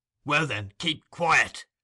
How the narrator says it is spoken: rejoined Sikes, with a growl like that he was accustomed to use when addressing his dog

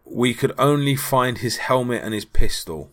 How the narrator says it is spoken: Manson said later

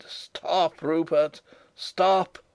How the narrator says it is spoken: For a time I made no sound, but as we rounded the corner of the old keep, I cried

